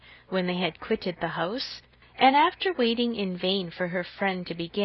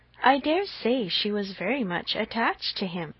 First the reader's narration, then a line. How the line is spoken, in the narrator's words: returned Harriet, sighing again